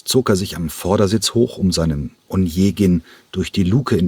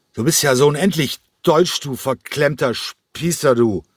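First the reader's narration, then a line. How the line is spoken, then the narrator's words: Loud drunken slurring. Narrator (German): Cranko lallte noch immer, aber seine Stimme war jetzt laut geworden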